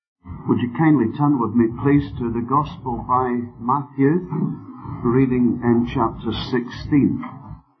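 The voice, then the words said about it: Scottish accent. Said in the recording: “I'm sure that some of you would like to have heard the Australian accent, but I haven't been able to get my tongue around it yet. ... this thing that the Scotch don't like to give away”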